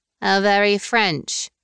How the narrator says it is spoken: Karina said dryly

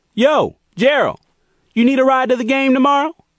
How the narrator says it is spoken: Andy yelled across the gym

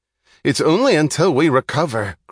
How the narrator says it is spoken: cried Holloway

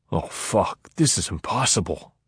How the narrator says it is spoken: Pinto gasped

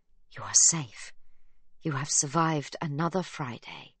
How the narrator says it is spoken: he whispers into her ear

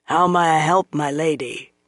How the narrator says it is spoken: he asked in a raspy voice

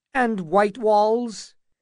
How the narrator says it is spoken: asked Butterwell with quavering voice

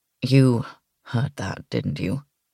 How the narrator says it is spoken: He asked quietly

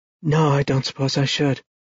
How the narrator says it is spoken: murmured

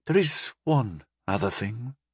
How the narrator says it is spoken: he said quietly

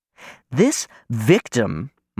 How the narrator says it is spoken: my mother says, her voice hot

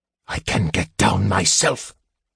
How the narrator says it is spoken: the mage hissed

